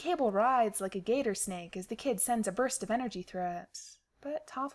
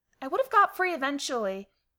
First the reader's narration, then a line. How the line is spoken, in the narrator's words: snaps